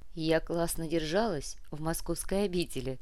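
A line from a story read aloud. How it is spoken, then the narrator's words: Young woman laughing. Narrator (Russian): рассмеялась девушка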